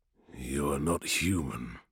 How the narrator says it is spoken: snarled Majo coldly

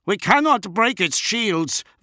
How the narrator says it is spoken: Van Aunger yelled back

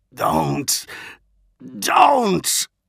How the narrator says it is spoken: he managed to splutter

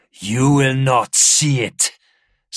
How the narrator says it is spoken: Scarp Hedin snarled

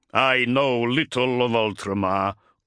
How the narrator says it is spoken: growled the Wolfguard

